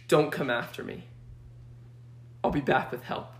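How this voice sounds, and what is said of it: Dramatic action-hero voice. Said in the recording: “He sounded like an action hero.”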